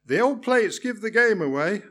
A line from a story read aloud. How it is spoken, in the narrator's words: I replied cheerfully